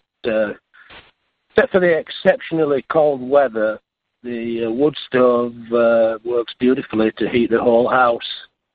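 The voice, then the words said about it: Strong Yorkshire accent. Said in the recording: “He's still got a strong Yorkshire accent”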